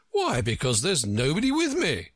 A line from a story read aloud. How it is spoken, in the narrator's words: cried Humpty Dumpty